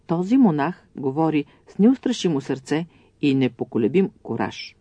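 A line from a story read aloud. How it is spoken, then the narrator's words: Admiring exclamation. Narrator (Bulgarian): Императорът, изпълнен с възхищение, възкликна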